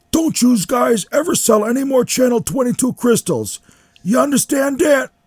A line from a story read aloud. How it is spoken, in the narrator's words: He is yelling